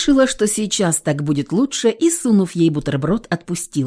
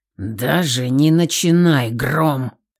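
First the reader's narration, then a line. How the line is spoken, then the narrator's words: Warning growl. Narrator (Russian): Предупреждающе рыкнул Илья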